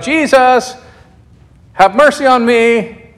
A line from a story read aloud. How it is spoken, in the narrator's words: A blind man forced to beg because of his disability hears that Jesus is coming and he shouts out